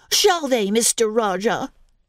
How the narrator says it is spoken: said Mary fiercely

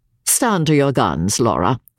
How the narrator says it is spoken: sneered Sir Percival

